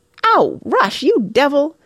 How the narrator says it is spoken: yelped Mona furiously, as a wet, generous handful of snow down her back

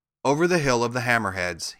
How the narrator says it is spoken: he answered

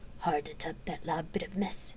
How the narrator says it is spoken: he murmured to Cyrene

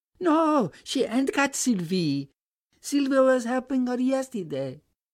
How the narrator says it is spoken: piped Bibi

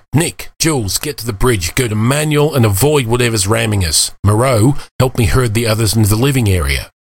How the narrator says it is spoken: Khalid snapped

